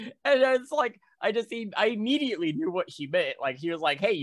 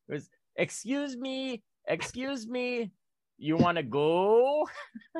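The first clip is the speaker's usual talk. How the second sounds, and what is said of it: Imitated Chinese British accented English. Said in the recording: “they speak it with a Chinese British accent... So this woman walks up to me in a Chinese British accent.”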